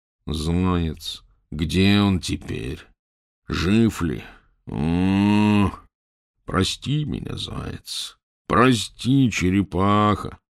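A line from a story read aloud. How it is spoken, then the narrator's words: Groaning rhinoceros. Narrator (Russian): стонал носорог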